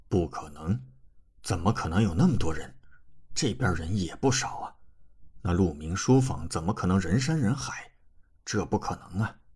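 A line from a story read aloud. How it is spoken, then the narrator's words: Deep grave voice. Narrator (Chinese): 沈玉明立刻沉声道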